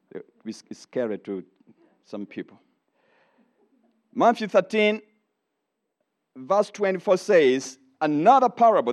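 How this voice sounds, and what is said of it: Noticeably different non-native accent. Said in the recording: “my accent. It's a little different.”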